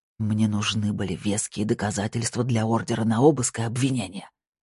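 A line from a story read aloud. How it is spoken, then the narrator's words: Whisper. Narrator (Russian): прошептал он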